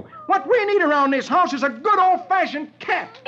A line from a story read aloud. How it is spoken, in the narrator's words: Dagwood roars